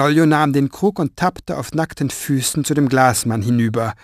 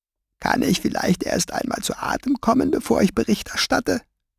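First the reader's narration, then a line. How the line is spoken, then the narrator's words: Sharp voice. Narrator (German): sagte mit spitzer Stimme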